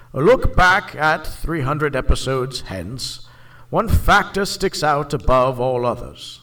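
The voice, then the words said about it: Imitates another person's voice. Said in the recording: “In my best Ian McKellen voice.”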